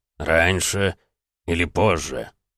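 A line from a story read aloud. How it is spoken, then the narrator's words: Low unhappy drone. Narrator (Russian): прогудел Бронзовый не слишком радостно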